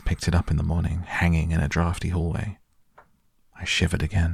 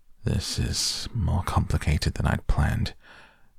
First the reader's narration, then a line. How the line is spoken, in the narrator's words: he murmured to himself